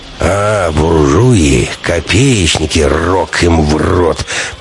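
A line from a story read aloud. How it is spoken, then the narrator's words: Grumbling. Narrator (Russian): проворчал Прокопыч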